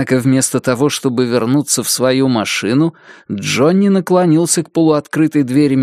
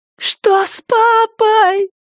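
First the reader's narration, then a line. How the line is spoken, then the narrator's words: Piercing thin-voiced scream. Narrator (Russian): пронзительно закричала Рэйчел тоненьким, как травинка, голосом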